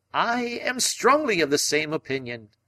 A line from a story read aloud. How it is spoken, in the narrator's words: cried Summerlee